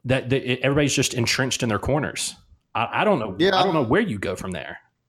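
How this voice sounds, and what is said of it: Older-sounding voice with Southern twang. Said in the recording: “you not only got older, but you somehow also got Southerner. you got a little bit more twang when you do that impression of yourself being older”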